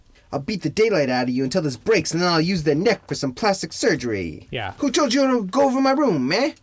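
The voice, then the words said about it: Poor 1930s movie-style accent. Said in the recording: “Your 30s accent is terrible.”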